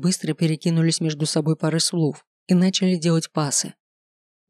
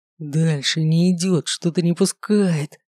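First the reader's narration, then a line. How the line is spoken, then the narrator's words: Hoarse wheeze. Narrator (Russian): просипел маг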